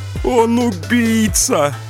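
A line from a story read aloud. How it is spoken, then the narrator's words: Sobbing harder. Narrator (Russian): зарыдал Антон Портнов еще сильнее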